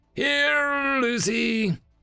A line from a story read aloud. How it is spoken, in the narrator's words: Aranis slurred through a smile